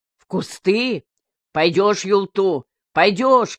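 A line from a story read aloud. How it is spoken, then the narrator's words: Frantic shouting. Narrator (Russian): кричал Матвей, не слыша себя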